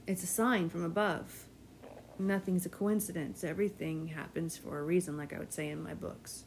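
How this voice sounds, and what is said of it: Strained, fading voice. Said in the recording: “my voice is going again”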